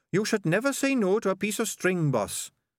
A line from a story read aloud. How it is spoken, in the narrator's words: said sardines earnestly